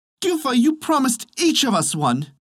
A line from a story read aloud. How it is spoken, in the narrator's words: cried the other children